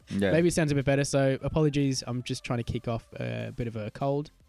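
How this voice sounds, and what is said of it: Raspy voice. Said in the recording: “I'm feeling a little bit raspy in my voice. A bit raspy in how I'm sounding.”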